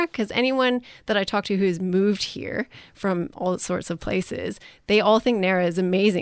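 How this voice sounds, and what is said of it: Non-local accent. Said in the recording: “I can tell by your accent and probably our listeners can tell that you didn't grow up here”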